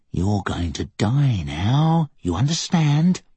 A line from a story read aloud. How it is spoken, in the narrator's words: Thomas giggled